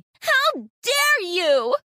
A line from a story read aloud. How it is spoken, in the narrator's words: Sarah spluttered